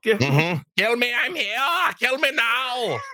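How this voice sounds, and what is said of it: Bad high-pitched German accent. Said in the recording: “It's like a high pitched. ... It's the worst German accent ever.”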